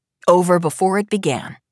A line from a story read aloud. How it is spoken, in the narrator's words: Cash says